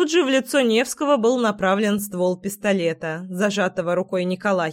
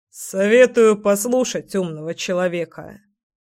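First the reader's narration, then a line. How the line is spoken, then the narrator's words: Snorting remark. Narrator (Russian): хмыкнул Николай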